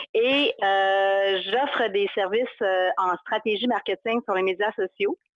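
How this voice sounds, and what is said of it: Saguenay regional Quebec French accent. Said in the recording (French): “je viens du Saguenay, de Chicoutimi plus précisément, c'est ça mon accent.”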